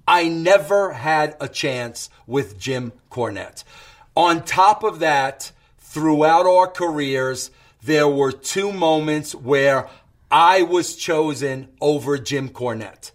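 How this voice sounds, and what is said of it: New York accent. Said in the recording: “Jim Cornette hates people from New York. ... He hated me because I was a New Yorker. He hated me because of my accent.”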